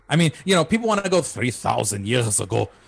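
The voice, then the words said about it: Imitates another person's accent. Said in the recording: “that's my Shimon Peres accent”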